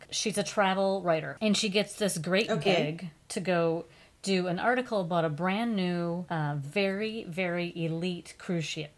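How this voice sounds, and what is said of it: Sudden Southern accent. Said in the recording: “I have a sudden Southern accent all of a sudden.”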